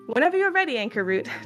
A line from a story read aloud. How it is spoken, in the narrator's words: Takulu shouted from the other side of the courtyard